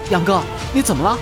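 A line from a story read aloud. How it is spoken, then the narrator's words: Hurried question. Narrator (Chinese): 口袋爸爸急忙问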